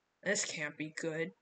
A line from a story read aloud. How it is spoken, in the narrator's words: Butch muttered